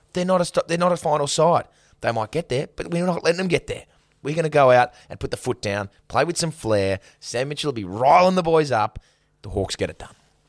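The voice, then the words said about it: Fired-up coach pep-talk delivery. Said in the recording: “You sounded like a coach giving a rev up speech.”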